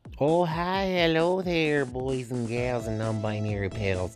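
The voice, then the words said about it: Put-on accent. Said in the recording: “I don't know why I was doing an accent there”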